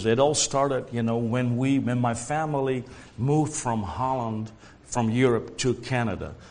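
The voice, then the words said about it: Dutch accent. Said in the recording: “what's that accent? Some people, you know, have thought it's French. Other people have said South African. ... It's actually Dutch.”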